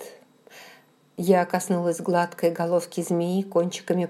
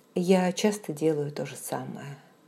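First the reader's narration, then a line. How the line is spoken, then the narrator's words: Soft, after pause. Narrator (Russian): мягко сказала я после короткой паузы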